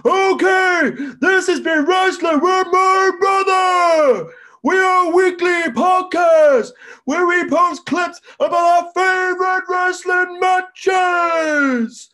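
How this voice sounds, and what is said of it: Poor put-on American wrestling-commentator voice. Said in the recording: “I'd like you to do it in the style of 1980s Vince McMahon on commentary ... I just have a shitty American accent.”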